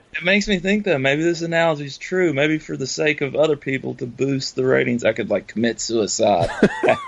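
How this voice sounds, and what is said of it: Slight Southern American accent. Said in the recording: “you guys are both, have a bit of a Southern accent.”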